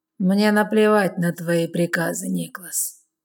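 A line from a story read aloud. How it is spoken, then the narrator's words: Lazy reply, young man. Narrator (Russian): лениво отзывается юный ублюдок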